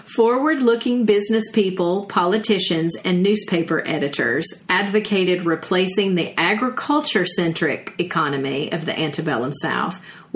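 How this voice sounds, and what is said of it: Southern American accent. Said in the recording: “my southern accent coming through”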